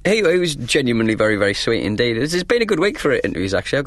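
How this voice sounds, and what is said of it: Northern English accent. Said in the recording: “your happy northern accent”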